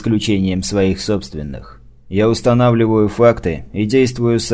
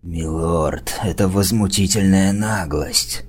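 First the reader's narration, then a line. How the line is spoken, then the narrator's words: Hissed. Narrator (Russian): зашипел Ирвин Коу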